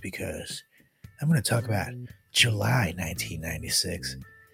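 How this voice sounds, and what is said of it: Put-on sultry sexy voice. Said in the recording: “I'm talking in my sexy voice”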